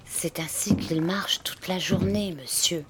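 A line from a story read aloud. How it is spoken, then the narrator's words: Whispering. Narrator (French): chuchota Poul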